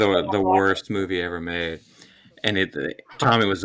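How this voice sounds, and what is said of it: Usual voice. Nothing is said of it.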